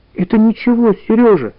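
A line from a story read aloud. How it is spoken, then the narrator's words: Frightened whisper. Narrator (Russian): испуганно шепнула Таня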